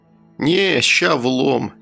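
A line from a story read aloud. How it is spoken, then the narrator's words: Lazy. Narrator (Russian): лениво произнес я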